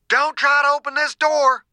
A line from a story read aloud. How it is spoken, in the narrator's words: Dew shouted